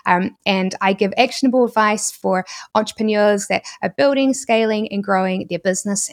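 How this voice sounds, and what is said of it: New Zealand accent. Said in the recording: “my New Zealand accent ... In New Zealand, we don't really have the letter E. We basically pronounce it as the letter I”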